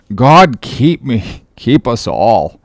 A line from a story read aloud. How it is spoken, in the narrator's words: murmured Starbuck, lowly